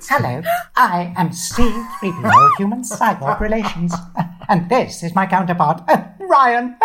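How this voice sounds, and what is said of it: C-3PO character voice. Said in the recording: “Your voice has not changed over the many years.”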